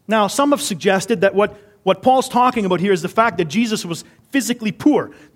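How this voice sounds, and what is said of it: Canadian accent. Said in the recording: “I don't have the right accent on that word ... Sometimes my Canadian accent gets me in trouble.”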